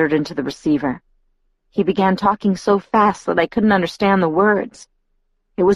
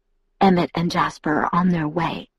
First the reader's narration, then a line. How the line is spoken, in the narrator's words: he whispered when he felt my resistance